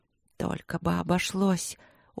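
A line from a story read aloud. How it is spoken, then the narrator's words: Pleading whisper. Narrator (Russian): умоляюще прошептала я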